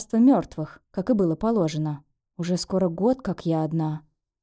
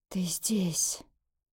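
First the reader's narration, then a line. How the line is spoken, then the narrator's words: Sudden hoarse, ominous voice. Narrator (Russian): вдруг сказала она хриплым, зловещим голосом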